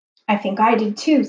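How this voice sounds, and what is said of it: Quivery, trembling voice. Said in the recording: “in a quivery voice”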